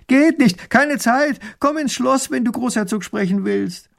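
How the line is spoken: Calling back. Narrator (German): Erich ruft zurück

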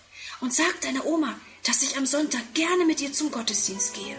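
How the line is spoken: Close whisper. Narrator (German): bückt sie sich noch einmal zu ihm herunter und flüstert

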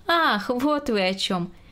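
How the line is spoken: Expressive, laughing. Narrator (Russian): выразительно произнесла Грета Максимовна и тоже засмеялась

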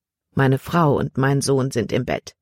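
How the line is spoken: Plain. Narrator (German): antwortete Herr Kimberly

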